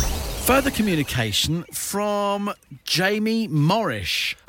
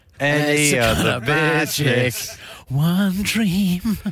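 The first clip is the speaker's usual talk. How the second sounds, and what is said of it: Sings imitating another person's voice. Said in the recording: “I love your Freddie Mercury impression. ... That is just how he sings.”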